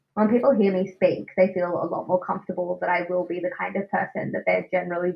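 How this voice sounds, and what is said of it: Australian accent. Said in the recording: “my Australian accent ... if I speak like this”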